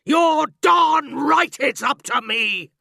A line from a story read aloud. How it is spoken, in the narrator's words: Miss Trunchbull bellowed